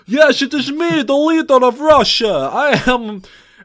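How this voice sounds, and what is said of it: Exaggerated fake Russian accent. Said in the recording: “Russian leader who's played by a very clearly not Russian man doing a this accent.”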